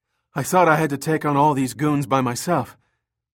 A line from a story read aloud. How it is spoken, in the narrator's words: Eddie panted